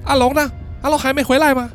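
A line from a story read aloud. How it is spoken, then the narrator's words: Shouting. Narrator (Chinese): 豆豆大喊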